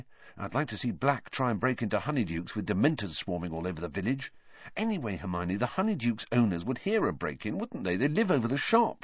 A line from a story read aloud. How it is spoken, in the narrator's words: said Ron quietly